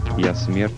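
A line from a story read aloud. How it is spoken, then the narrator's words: Quiet. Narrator (Russian): негромко проговорила она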